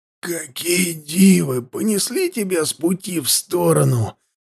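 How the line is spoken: Breathless wheeze. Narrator (Russian): тяжело дыша, прохрипел Хаста

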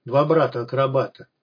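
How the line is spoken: Contemptuous grumble. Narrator (Russian): презрительно проворчала Люда

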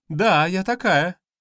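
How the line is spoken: Cheerful. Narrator (Russian): Бодро ответила Лера

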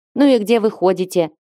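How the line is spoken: Angry question. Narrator (Russian): сердито спросила их Дайра

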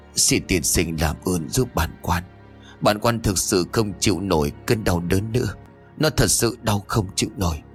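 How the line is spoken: Moaning in pain. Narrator (Vietnamese): Quan tri phủ lúc này rên rỉ nói

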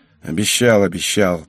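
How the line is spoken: Grumbling reply. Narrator (Russian): проворчал я на ее слова

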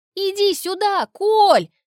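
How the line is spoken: Loud call. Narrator (Russian): зову громко

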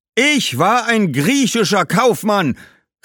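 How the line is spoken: Ghost calling out, interrupting. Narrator (German): rief Heraklits Geist dazwischen

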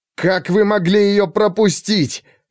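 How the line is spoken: Desperate shout. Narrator (Russian): Отчаянно крикнул он

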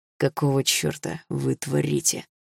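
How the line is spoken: Through gritted teeth. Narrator (Russian): сквозь зубы процедил Руслан

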